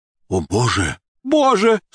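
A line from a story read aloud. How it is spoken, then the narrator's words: Sudden exclamation. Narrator (Russian): Вдруг иностранец воскликнул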